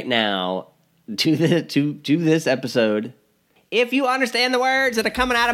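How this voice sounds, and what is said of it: Imitates another person's voice. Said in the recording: “my Chris Tucker impersonation.”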